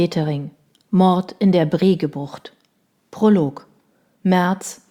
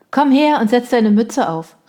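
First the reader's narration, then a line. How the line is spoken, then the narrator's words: Woman calling out. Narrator (German): rief die Frau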